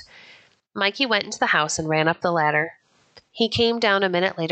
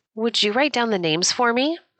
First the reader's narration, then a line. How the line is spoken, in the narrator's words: Mikey asked, forgetting now about being laughed at